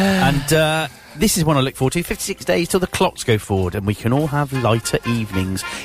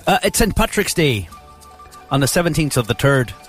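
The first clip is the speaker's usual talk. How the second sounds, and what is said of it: Put-on Irish accent. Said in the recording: “That's my best Irish accent”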